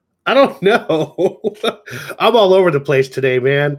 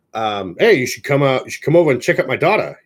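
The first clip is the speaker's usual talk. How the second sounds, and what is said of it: Old-timey radio announcer voice. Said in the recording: “like an old timey radio announcer”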